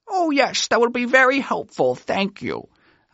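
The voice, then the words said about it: Put-on voice quoting a woman. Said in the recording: “I'm doing a voice. That's not how she sounded.”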